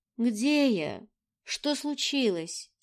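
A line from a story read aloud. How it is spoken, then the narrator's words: Sleepy mumble. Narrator (Russian): Сонно пробормотала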